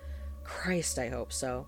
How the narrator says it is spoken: Calvin replied with a heavy sigh

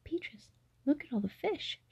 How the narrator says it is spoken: exclaimed

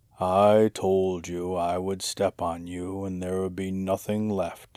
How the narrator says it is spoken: muttered

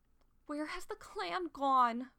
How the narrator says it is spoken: Squirrelpaw wailed

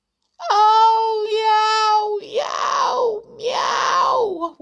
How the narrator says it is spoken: wailed Tiddles from the chimney

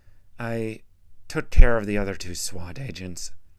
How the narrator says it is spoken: Horizon said uneasily

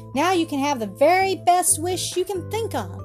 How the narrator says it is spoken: she cried

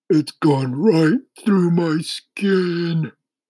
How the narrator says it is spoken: the earthworm groaned

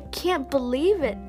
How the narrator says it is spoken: Anna cried happily

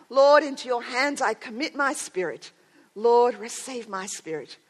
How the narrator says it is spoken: when Ridley saw the flame flaming up towards him, he cried out

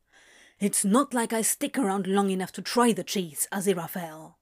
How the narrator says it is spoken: Crowley snapped

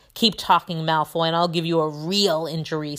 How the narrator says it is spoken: snarled Ron

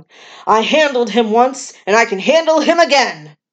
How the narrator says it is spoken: Suddenly, the loony McLaren starts yelling

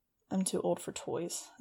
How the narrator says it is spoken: I muttered angrily

